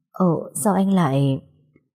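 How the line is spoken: Stammering. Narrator (Vietnamese): tôi lắp bắp nói

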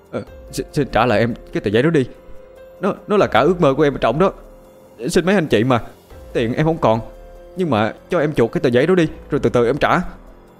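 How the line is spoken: Terrified stammer. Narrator (Vietnamese): Thằng Kiên hoảng sợ tột độ, nó lắp bắp nói

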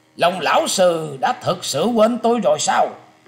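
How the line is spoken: Loud laughing. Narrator (Vietnamese): Người đàn ông ấy cất tiếng cười to nói

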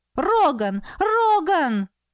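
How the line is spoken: Frightened shouting. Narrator (Russian): испуганно кричала Иделин

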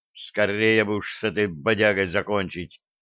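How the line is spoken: Sighing. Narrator (Russian): вздохнул Блат

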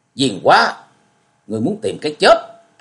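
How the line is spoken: Loud shout. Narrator (Vietnamese): lên tiếng quát lớn

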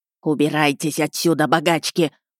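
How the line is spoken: Burly man hissing. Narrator (Russian): прошипел дородный мужик

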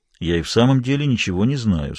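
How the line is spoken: Forced calm. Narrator (Russian): сказал он как мог спокойно

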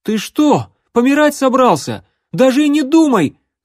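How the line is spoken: Yelling. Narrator (Russian): завопил Алан

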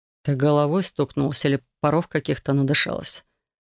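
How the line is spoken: Deceptively gentle question. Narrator (Russian): Обманчиво ласковым тоном спросил он

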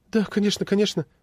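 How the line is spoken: Flustered babble. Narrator (Russian): залепетала она

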